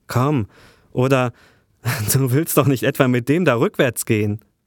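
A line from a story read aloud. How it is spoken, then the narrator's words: Loud laughing. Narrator (German): Er lachte schallend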